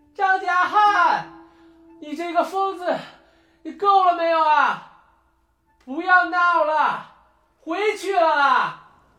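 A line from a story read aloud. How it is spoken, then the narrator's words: Breathless stubborn shouting. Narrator (Chinese): 波利已经上气不接下气了，却还是固执的不愿放弃，大喊道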